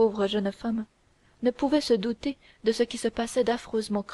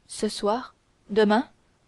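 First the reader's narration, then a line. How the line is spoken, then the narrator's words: Startled exclamation. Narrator (French): s'écria Milady, tirée de sa rêverie par ces paroles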